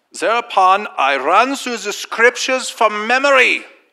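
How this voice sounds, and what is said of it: Put-on German accent. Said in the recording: “I have a German accent.”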